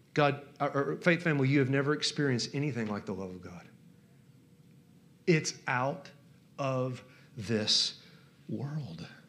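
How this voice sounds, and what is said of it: Southern US accent. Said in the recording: “you can tell by my southern accent”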